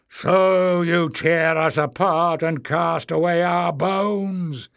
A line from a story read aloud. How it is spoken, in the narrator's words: roared